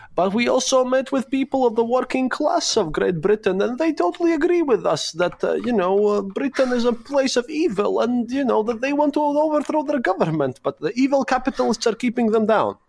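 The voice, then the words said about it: Silly put-on accent. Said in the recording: “I put on my silly accent for that.”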